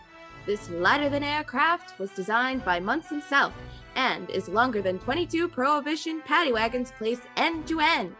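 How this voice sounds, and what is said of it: Put-on transatlantic accent. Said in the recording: “I really tried with my transatlantic accent.”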